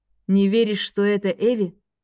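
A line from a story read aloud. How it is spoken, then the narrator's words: Sad, smiling. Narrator (Russian): грустно улыбнулся Рейн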